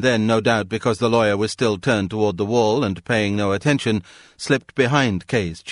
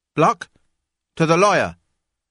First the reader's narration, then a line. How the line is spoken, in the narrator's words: called out